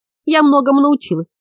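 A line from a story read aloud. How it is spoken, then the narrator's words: Sighing. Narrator (Russian): вздохнула Йока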